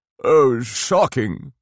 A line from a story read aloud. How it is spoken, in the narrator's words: groaned the Earl